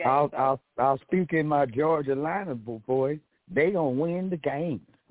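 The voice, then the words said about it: Put-on Southern country twang. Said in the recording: “country twang”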